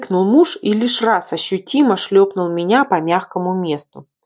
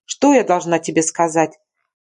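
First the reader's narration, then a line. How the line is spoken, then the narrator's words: Snorting. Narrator (Russian): фыркнула я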